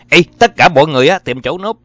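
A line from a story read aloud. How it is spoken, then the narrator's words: Sudden urgent shout. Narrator (Vietnamese): Gary Malone hét nhặn lên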